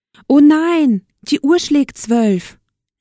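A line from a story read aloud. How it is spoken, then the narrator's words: Calling out. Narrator (German): rief Aschenputtel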